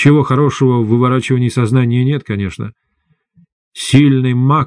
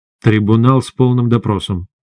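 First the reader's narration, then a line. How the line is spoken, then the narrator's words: Grim. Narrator (Russian): мрачно сказал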